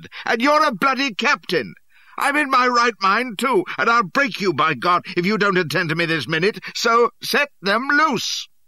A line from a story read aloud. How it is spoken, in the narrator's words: I hollered